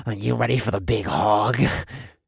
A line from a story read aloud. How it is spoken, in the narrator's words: Div asked in a sleazy voice